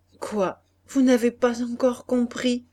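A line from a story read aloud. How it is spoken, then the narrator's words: Broken voice. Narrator (French): Elle répondit d'une voix brisée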